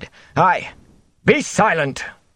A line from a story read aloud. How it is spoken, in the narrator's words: the mayor roared